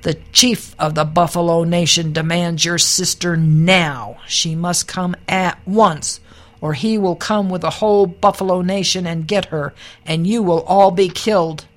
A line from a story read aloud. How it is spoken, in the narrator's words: an old bull with sharp curved horns charged up and thundered